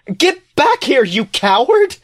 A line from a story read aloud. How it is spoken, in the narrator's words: She screams, her voice breaking